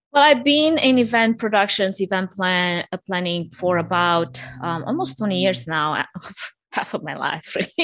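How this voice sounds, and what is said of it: Romanian accent. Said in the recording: “I'm originally from Romania for anyone that's sensing an accent.”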